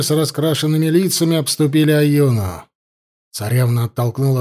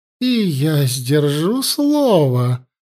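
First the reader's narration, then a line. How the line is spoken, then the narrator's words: Purring. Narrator (Russian): промурлыкала верховная жрица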